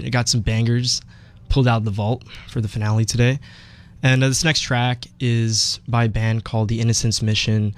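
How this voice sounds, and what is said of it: Voice sounds a bit sick. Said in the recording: “my voice sounds a bit sick today. I'm kind of recovering from some allergies”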